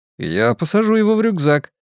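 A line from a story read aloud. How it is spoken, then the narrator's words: Laughing. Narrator (Russian): Рэйчел рассмеялась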